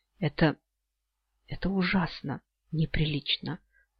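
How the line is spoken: Breathless. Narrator (Russian): выдохнула она

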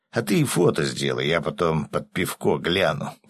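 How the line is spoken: Grumbling mutter. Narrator (Russian): пробурчал рыбак

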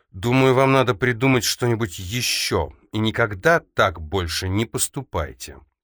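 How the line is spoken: Icy tone. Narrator (Russian): произнесла Эльза ледяным тоном

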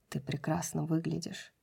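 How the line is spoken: Muttered. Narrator (Russian): пробормотал Кормак

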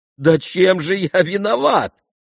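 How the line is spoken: Shouting. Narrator (Russian): кричал Коля

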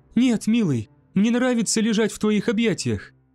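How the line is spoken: Exclaimed. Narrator (Russian): воскликнула Десселин

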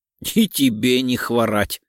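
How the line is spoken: Amused snort. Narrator (Russian): хмыкнул Лев

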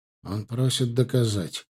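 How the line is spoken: Cold. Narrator (Russian): холодно перевел Алим

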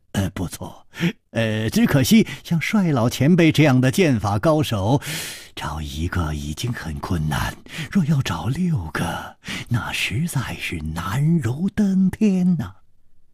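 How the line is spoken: Calm sigh. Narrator (Chinese): 李玉涵面不更色叹道

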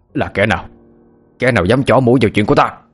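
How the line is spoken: Startled shout. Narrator (Vietnamese): Lão Phúc cả kinh, miệng quát lên

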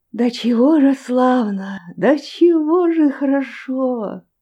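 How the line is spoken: Hushed exclamation. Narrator (Russian): воскликнул он вполголоса

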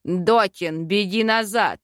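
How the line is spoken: Barked. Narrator (Russian): рявкнул Йоран

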